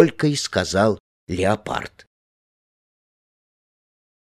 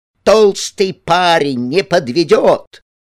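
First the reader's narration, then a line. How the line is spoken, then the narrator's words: Very loud. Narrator (Russian): Она произнесла это так громко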